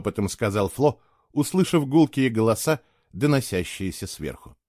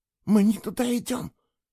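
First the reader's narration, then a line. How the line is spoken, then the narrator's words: Panicked whisper. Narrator (Russian): в панике прошептала она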